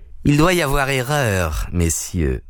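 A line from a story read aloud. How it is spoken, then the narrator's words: Unctuous voice. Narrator (French): dit-il d'une voix onctueuse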